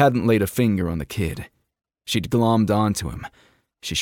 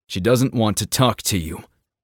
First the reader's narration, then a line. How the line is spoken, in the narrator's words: he growled